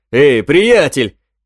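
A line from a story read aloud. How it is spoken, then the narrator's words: Shout. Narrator (Russian): крикнул он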